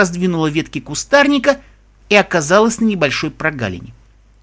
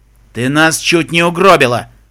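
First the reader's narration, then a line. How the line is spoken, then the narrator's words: Growled. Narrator (Russian): прорычал тот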